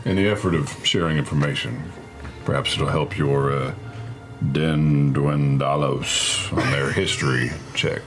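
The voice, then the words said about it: Character voice with an accent. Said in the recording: “Good accent.”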